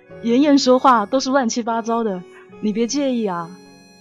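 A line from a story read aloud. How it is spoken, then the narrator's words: Smiling. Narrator (Chinese): 周逸晨笑了一笑，跟他说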